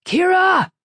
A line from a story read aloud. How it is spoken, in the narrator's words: Falcone shouted